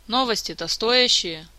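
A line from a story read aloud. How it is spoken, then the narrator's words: Weary boss. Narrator (Russian): устало уточнил босс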